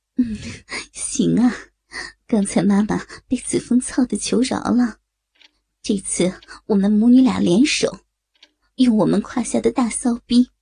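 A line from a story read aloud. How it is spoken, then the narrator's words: Lewd laughter. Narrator (Chinese): 刘梦洁也淫笑着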